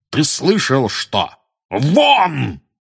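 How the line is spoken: Startlingly loud bark. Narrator (Russian): гаркнул дядя Вернон так, что даже тетя Петунья и Дадли подскочили

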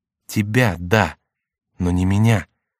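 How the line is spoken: Sad reply. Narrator (Russian): грустно ответил ему Сен-Люк

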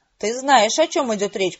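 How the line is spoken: Growl. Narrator (Russian): прорычала я

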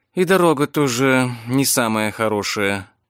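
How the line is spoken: Jolted exhaled words. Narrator (Russian): выдохнула Виктория, в очередной раз подпрыгивая на сиденье

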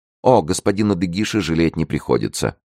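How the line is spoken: Quick addition. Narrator (Russian): добавила она быстро

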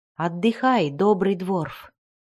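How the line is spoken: Calm, soothing. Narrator (Russian): теперь уже спокойным, умиротворяющим тоном сказал он

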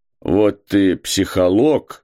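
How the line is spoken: Fatherly reproachful grumble. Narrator (Russian): проворчал он по-отечески укоризненно

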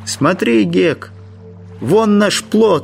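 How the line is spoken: Exclaimed. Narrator (Russian): воскликнул Джим

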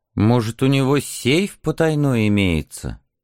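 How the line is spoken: Suspicious mutter. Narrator (Russian): Пробормотал он с подозрением

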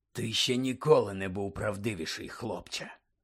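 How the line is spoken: Whispered. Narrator (Ukrainian): Прошепотів хтось за Дамблдором

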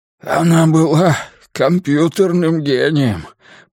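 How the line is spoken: Hoarse rasp. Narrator (Russian): прохрипел Миртон

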